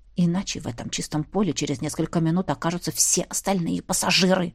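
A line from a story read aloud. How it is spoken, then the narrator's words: Frightened growl. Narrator (Russian): рыкнул герцог, разбегаясь от страха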